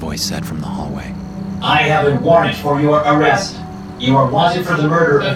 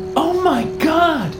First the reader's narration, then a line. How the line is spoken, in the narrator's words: Patricia said, her voice high and tight